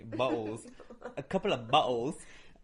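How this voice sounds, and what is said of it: Sudden Manchester accent. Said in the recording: “my accent's gone crazy ... Manchester accent”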